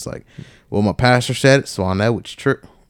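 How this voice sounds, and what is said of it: Brief southern accent. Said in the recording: “I don't know why my southern accent just came out.”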